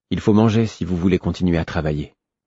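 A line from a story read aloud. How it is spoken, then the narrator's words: Neutral tone. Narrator (French): fis-je d'un ton neutre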